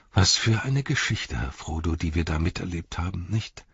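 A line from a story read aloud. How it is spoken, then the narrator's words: Sighing. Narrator (German): sagte er und seufzte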